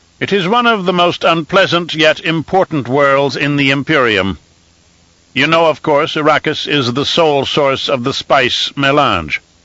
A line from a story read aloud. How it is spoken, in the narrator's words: Elrood said a little sharply